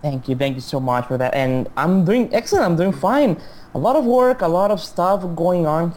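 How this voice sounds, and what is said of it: Mexican Spanish accent in English. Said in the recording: “my accent. I am not a native English speaker. I'm from Mexico, so you may notice a sort of a weird pronunciation maybe on a few words here and there”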